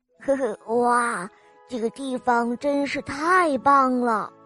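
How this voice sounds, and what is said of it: Quiet, murmured voice. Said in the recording (Chinese): “小声的念叨了一遍”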